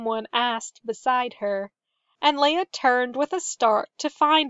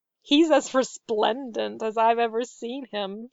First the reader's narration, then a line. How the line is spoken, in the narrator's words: she laughed